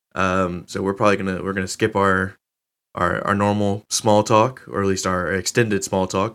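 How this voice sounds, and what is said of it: Strained, sick voice holding back coughs. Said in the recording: “I am the sick co-host ... My voice is strained, and I am fighting back coughs”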